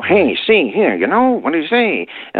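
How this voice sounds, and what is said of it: Old-fashioned 1930s style voice. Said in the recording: “speak with different accents from decade to decade. You could tell listening to recordings of people that's 1930s.”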